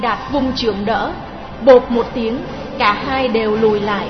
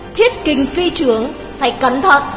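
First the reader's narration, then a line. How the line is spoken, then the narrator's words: Hurried cry. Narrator (Vietnamese): Đào Kỳ vội kêu lên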